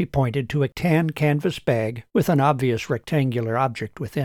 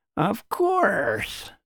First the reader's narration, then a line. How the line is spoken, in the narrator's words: snorted Shively